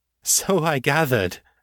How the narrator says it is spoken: she said, laughing

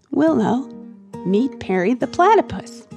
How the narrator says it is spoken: said calmly

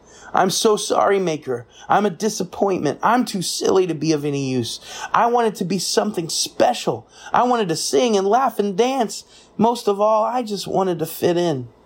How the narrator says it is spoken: was afraid to tell the truth, but he found a tiny bit of courage, faced the Maker, and cried

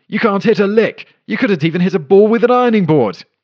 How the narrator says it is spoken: she yelled at him

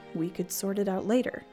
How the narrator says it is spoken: Dad shrugged and muttered

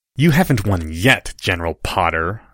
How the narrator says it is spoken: snarled Draco

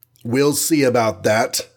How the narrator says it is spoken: said gratingly, and then he raised his voice to shout

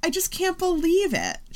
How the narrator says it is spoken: she whines

